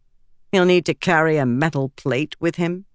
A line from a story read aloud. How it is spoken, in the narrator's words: Frava said dryly